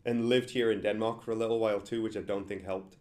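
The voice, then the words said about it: Mixed English and American accent. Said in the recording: “I'm originally English despite this messed up accent because I live in America now”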